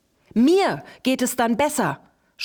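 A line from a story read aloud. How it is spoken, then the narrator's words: Frantic screaming. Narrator (German): schrie Wilma völlig außer sich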